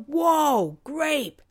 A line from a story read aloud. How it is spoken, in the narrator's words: yell